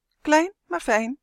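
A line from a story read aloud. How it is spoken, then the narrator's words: Proud call. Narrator (Dutch): riep Justin trots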